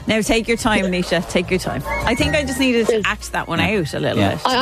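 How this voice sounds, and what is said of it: Usual voice. Nothing is said of it.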